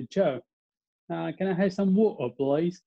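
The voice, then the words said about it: Put-on English accent. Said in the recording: “you sound so funny ... try to impersonate an English accent”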